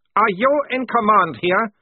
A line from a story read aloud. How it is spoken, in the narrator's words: barked Horrentz